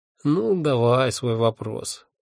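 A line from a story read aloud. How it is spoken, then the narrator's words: Sleepy grumble. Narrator (Russian): сонно проворчал он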